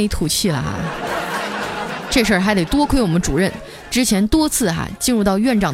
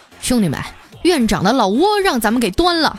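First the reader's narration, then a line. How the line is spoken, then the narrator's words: Leisurely drawn-out remark. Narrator (Chinese): 妇科主任啊，悠悠的来了一句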